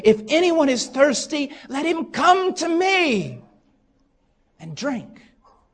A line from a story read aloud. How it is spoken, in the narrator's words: Jesus stood and cried out, saying